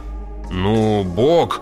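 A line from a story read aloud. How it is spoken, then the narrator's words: Snort. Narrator (Russian): Хейс хмыкнул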